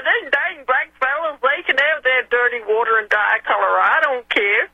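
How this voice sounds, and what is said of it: Put-on Southern American accent. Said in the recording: “I'm putting on a southern accent”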